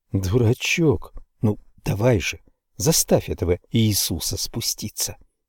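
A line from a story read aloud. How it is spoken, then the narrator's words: Whisper. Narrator (Russian): прошептала Констанция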